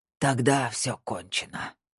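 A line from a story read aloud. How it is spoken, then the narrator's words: Breathed out. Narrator (Russian): выдохнул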